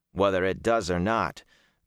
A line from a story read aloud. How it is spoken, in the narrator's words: Perrin said dryly